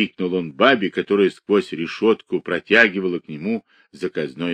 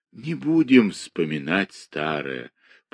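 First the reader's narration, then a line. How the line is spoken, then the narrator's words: Tender. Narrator (Russian): продолжал он нежно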